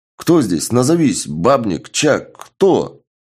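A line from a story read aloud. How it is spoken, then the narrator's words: Speaking through gritted teeth. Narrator (Russian): бабник, процедив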